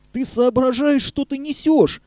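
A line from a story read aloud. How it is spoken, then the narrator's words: Horrified yelling. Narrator (Russian): в ужасе завопил Вася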